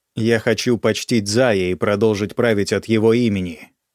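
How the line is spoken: Plain. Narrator (Russian): сказала я

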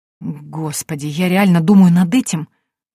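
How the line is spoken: Bewildered whisper. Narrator (Russian): растерянно прошептала я

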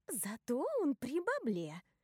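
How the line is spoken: Cheerful whisper. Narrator (Russian): весело шепчет Поппи

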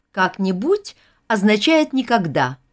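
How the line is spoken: Exclaiming. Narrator (Russian): воскликнула Вера

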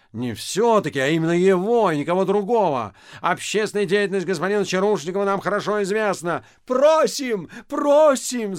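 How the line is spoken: Crowd shouting. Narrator (Russian): закричали все

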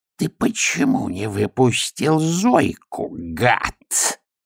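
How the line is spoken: Hissed. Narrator (Russian): прошипел Аметистов

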